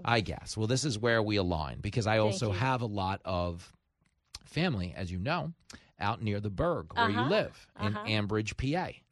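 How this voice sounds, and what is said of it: Brooklyn-style New York accent. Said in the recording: “I'm like a hippie. who just sounds like he's from like Brook, like Bensonhurst or something... Because I have this accent”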